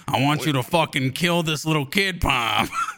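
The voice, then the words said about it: Tony Soprano-style gangster voice. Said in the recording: “I'm a Tony Soprano type ... why you keep switching up your voice so much”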